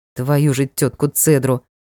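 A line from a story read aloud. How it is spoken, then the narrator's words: Muttered. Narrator (Russian): пробормотал Ник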